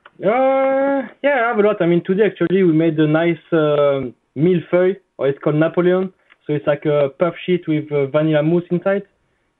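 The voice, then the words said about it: Speaks with a foreign accent. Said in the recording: “I want to hear it in your accent”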